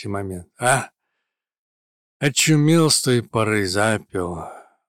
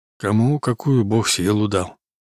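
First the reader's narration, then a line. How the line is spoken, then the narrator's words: Sighing. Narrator (Russian): вздохнул Тихон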